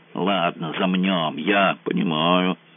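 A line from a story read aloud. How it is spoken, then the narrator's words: Grumpy grumble. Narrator (Russian): сварливо пробурчала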